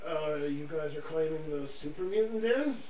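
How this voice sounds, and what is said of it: Character voice. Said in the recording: “in a Bradley voice”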